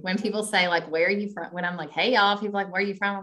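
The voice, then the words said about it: Kentucky accent. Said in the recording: “that accent... I'm from Kentucky.”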